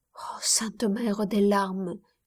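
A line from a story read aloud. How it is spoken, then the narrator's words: Dying murmur. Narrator (French): murmurait au moment de son agonie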